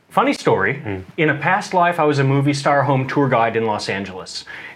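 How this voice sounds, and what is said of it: American accent. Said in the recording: “you've obviously got an accent... originally from Los Angeles, California.”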